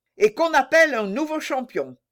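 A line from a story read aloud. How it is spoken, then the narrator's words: King shouting. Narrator (French): cria le roi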